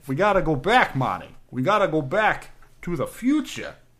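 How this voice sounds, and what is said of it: Failed impression, comes out Boston accent. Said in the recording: “I'm just a Boston accent. It's happening... I'm just Boston. It's just a Boston accent.”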